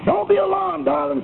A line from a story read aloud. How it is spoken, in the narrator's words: cried the young American engineer